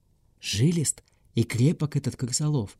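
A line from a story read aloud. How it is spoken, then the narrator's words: Whispered. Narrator (Russian): шепнул бургомистр судье Каспару Геллеру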